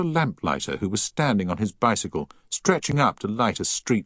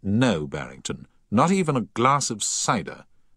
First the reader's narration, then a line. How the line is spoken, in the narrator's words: said Paget firmly